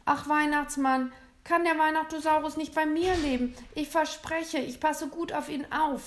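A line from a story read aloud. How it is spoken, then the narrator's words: Pleading. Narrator (German): flehte William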